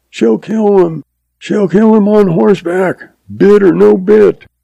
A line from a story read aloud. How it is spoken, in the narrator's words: F yells